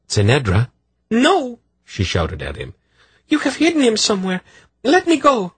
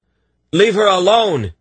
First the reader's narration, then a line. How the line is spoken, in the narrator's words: he shouted at the guard